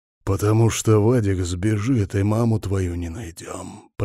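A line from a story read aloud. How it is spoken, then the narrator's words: Hoarse wheeze, then coughing. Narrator (Russian): прохрипел я и закашлялся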